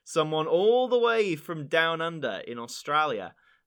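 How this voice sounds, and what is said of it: Poor put-on Australian accent. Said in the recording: “That was probably a terrible accent ... not the worst I've heard”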